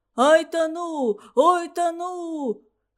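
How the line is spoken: Choking wheeze, fat man. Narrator (Russian): хрипел толстяк, захлебываясь в тесте

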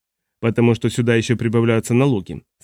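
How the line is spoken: Plain. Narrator (Russian): сказал Маркус

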